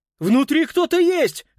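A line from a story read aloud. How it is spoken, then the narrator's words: Shouting. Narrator (Russian): крикнул Питер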